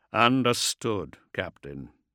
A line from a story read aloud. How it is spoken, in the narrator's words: Thane said gravely